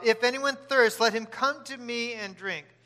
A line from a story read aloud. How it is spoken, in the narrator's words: Jesus stood up and cried out